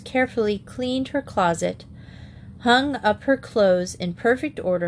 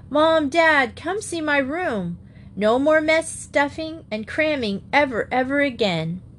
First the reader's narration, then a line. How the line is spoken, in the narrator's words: Katie yelled down to her mother and father